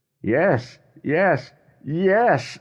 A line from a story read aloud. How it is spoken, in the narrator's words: shouted